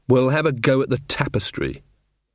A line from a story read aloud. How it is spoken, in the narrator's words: said Magrat firmly